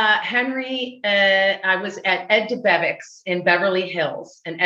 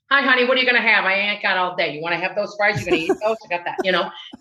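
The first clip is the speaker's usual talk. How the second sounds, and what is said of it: Put-on rude Chicago accent. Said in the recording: “I was doing my Chicago accent, you know, pretending that I was Ed DeBevick's sister, Rusty DeBevick ... you were kind of rude to the customers”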